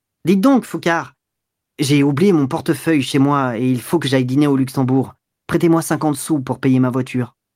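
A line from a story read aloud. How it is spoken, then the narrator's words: Brusque, nervous voice. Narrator (French): Duroy, nerveux, d'une voix brusque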